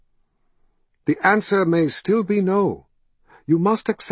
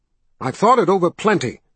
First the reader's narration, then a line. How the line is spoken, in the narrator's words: Carl snapped